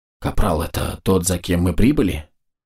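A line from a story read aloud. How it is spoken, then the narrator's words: Group whispering. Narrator (Russian): Бойцы зашептали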